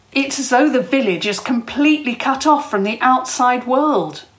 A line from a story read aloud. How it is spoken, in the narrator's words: Joel said, almost excitedly